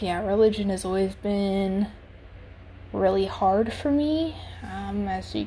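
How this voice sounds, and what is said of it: Usual voice. Nothing is said of it.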